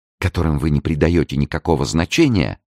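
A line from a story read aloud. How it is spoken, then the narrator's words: Exclaiming. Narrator (Russian): воскликнула Луиза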